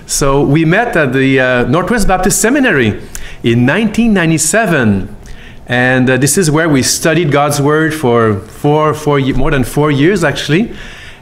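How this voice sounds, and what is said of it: Québécois French accent in English. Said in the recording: “I'm from Quebec, as you can hear the accent. I have never lost the French accent from Montreal.”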